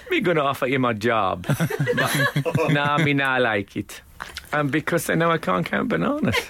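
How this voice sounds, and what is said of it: Put-on West Indian accent. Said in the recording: “do the voice ... let's say it's a white bloke from the West Indies ... Can you do a white West Indians accent?”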